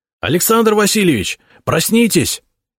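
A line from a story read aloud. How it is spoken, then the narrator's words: Alarmed shout. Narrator (Russian): закричал встревоженный голос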